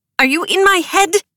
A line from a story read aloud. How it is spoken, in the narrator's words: squeaked